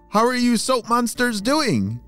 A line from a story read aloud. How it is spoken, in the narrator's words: she shouted